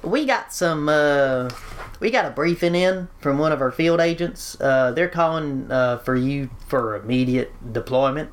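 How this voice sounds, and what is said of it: Put-on hick accent. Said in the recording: “Give him a hick accent ... You want a hick accent? Yeah, all right, fine.”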